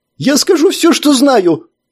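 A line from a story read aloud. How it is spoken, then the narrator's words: Nearly shouting, no stutter. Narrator (Russian): почти закричал Джааб, прекратив заикаться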